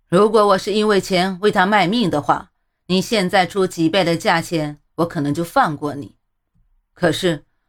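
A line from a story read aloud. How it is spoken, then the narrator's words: Unmoved, scornful sneer. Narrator (Chinese): 中年男子根本不为所动，他嗤笑了一声之后说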